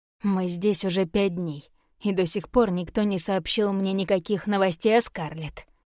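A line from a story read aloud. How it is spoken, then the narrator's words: Growl. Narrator (Russian): прорычал Каллан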